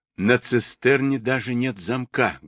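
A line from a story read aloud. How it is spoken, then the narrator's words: Loud whisper. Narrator (Russian): громко прошептал Блуи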